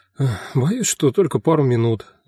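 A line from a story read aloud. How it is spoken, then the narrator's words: Sighing. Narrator (Russian): вздохнул я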